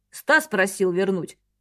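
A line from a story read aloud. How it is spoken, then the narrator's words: Perfunctory reply. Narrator (Russian): дежурно ответил Артур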